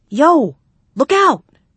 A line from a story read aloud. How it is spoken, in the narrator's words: Mather yelled